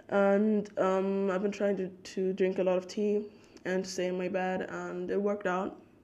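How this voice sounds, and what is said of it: Slightly altered, unwell-sounding voice. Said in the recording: “you can really hear it. Like, I know my voice sounds a little bit different ... my voice sounded much worse”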